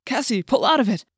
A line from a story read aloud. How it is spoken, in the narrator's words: Jake cried in an urgent whisper